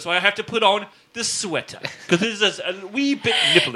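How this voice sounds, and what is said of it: Put-on British accent. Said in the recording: “I'm doing this British accent”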